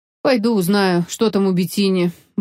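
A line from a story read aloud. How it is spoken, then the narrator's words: Gloomy. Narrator (Russian): мрачно сказал полковник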